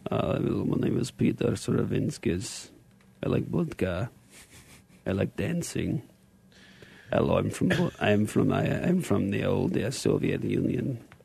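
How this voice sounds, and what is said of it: Put-on Russian accent. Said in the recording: “how do you like my Russian? I got to work on my Russian accent.”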